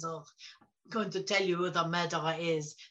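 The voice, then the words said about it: Bad Belgian accent, Hercule Poirot. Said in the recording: “Hercule Poirot ... Sorry for my bad Belgian accent”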